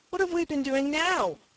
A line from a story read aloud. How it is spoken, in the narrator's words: cried Faith in amazement